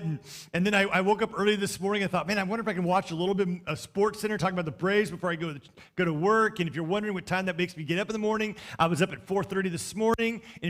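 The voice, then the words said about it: Talking very fast. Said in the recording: “I'm talking so fast,”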